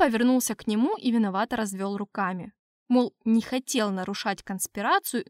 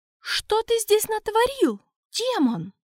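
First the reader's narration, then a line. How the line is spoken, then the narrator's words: Angry shout from behind. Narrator (Russian): гневно крикнули на меня сзади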